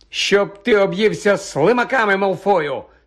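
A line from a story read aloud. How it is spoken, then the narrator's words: Angry retort. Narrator (Ukrainian): сердито обізвався Рон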